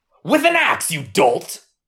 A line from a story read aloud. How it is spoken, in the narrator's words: Captain Cross snapped